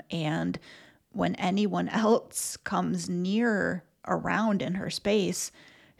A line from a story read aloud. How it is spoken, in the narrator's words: she growls